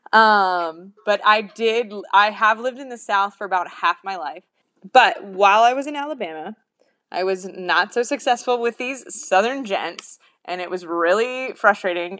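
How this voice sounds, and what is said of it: Neutral, ambiguous American accent. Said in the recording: “I'm not Southern, as you can tell from my wonderful, ambiguous accent, American accent.”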